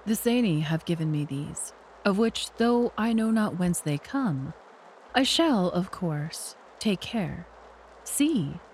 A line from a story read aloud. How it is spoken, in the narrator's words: said in his smoothest voice